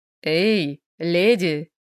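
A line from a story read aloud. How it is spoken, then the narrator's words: Serious calling out. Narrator (Russian): ее окликнули серьезным голосом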